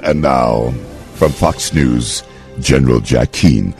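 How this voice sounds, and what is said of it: Announcer voice. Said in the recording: “do the announcer voice?”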